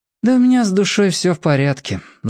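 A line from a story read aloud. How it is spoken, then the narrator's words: Sighing. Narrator (Russian): вздохнул Мир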